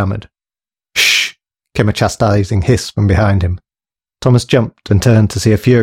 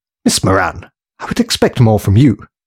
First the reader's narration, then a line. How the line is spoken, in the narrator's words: she exclaimed in a firm, disapproving whisper